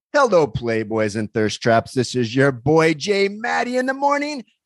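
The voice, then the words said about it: Wacky morning radio DJ voice. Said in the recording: “this is my wacky morning DJ voice.”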